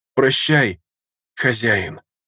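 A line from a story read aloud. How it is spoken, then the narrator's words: Hoarse rasp. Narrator (Russian): Прохрипела та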